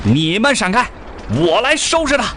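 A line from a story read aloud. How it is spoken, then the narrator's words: Soldier shouting. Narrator (Chinese): 一个战士喊道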